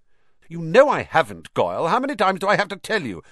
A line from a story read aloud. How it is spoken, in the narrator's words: snapped Malfoy